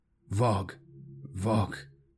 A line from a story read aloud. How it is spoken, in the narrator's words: he mumbled, transfixed by the growing sense of the rhythm